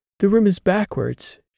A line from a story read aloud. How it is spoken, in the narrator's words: said, gasping at her first sight in nearly half a year